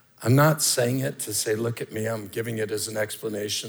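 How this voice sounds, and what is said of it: Hoarse voice. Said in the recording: “it's affected my voice. The drainage on my vocal cords has irritated my voice to the point that my voice is hoarse.”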